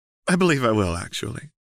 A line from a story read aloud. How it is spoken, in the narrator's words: Seraphine said with a small laugh